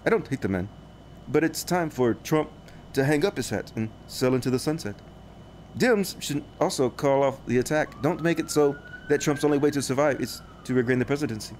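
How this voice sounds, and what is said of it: Robotic Elon Musk impression. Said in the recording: “my Elon voice. Elon kind of talks like a robot like this.”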